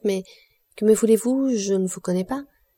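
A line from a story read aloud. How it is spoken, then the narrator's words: Stammering answer. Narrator (French): répondit Julie toute balbutiante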